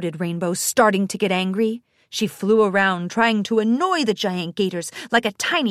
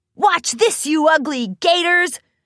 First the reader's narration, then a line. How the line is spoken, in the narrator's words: yelled